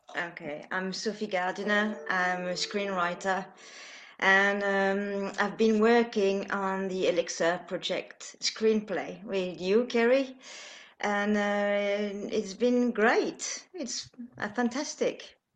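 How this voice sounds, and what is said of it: Foreign accent. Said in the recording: “I love your accent. Your accent is amazing ... you need to have a foreign accent.”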